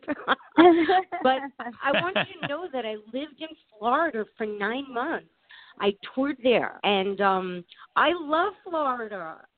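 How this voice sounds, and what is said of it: New York accent. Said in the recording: “I am a New Yorker, so you will definitely hear the New York accent.”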